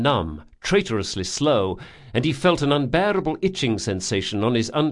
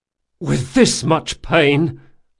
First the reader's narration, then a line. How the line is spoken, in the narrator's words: Locke gasped